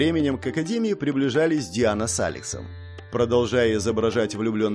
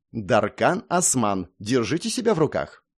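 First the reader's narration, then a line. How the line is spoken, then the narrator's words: Serious, stern. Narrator (Russian): серьезно и строго сказала Ангелина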